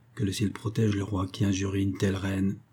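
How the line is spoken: Murmured into ear. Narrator (French): murmurait Monde à l'oreille de Valérie

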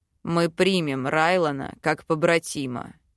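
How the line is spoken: Growling declaration. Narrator (Russian): заявляет Белоснежка с рычанием

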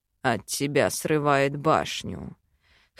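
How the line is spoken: Hoarse reply. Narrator (Russian): хрипло ответил он

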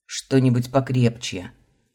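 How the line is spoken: Growl. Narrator (Russian): Рыкнул

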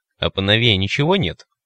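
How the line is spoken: Grumbling. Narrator (Russian): проворчал тот, кого назвали Сидоровичем

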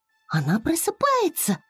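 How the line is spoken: Joyful. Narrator (Russian): радостно сказала Флора

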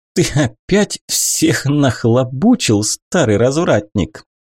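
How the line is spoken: Loud laughter. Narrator (Russian): Нейра расхохоталась в голос

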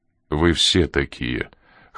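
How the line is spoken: Cold reply. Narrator (Russian): холодным тоном ответил Коридон

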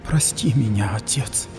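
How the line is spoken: Anguished whisper. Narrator (Russian): прошептала Ксифаули, видя, что враги истребляют ее верующих

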